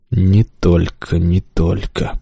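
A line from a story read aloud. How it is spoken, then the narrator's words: Muttering. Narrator (Russian): пробормотал Балаватх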